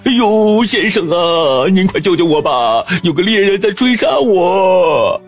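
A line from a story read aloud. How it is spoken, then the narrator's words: Wolf desperately pleading. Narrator (Chinese): 狼……苦苦哀求道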